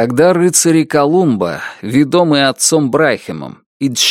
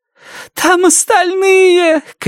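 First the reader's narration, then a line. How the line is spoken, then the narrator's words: Shouting. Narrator (Russian): кричала она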